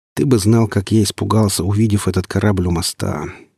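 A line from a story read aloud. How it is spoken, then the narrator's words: Weary, dismissive. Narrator (Russian): устало отмахнулся я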